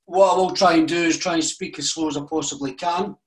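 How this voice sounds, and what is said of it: Scottish accent. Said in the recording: “I'm from Scotland, as I'm sure you'll probably notice with the beautiful accent that I have”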